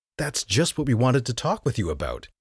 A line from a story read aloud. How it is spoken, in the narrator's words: exclaimed